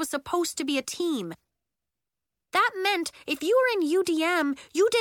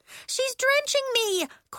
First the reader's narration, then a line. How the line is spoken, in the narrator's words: cried Nori